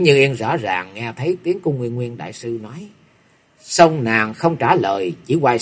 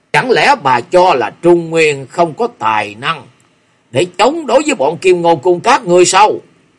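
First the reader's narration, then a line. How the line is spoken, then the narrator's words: Angry. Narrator (Vietnamese): Nguyên Nguyên đại sư tức giận nói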